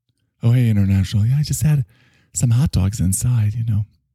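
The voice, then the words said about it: Performs a female character voice. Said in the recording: “how to do her voice”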